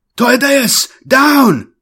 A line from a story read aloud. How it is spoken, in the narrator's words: a shout from behind